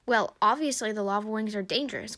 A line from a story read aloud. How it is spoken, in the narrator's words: Cottontail snapped